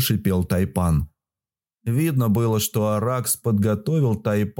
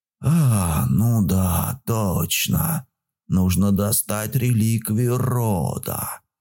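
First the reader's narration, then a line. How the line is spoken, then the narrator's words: Hiss. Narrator (Russian): прошипел Тайпан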